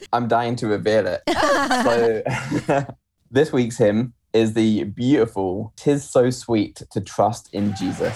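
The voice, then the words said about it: English accent. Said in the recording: “I hope our listeners are really enjoying his accent ... Can you say something like just English for us?”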